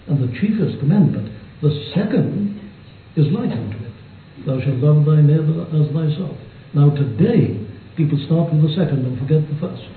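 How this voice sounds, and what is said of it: Welsh accent. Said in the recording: “his Wales accent”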